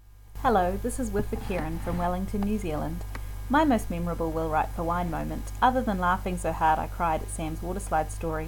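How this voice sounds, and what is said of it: New Zealand accent. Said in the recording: “a very, very cool New Zealand accent.”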